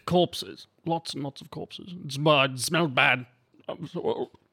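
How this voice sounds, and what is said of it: Put-on character accent. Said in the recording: “keep doing that to keep my accent there”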